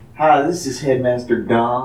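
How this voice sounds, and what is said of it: Fake put-on accent. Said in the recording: “you get your fake accent out of the microphone”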